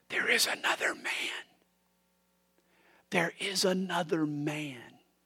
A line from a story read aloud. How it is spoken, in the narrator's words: him whisper